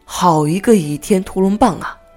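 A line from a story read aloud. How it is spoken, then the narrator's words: Admiring exclamation. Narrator (Chinese): 他忍不住发出赞叹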